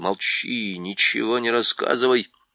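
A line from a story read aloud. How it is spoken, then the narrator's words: Whisper. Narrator (Russian): Дриньян прошептал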